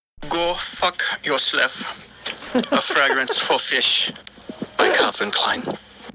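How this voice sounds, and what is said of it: Convincing put-on accent. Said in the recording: “really got that accent down. He's got that accent down. ... Not to be confused with the SpongeBob voice. ... He's got that accent down.”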